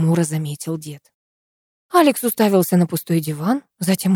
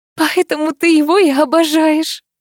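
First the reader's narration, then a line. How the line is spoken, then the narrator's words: Laughing. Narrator (Russian): рассмеялась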